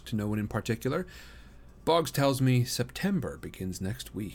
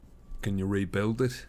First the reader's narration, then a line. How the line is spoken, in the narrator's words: Gale asks